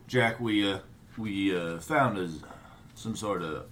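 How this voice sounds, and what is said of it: Deep character voice. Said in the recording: “with such a deep voice.”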